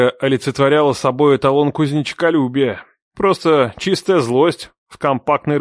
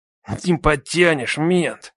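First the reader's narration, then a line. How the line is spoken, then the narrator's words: Angry grunting. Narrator (Russian): зло прокряхтел кузнечик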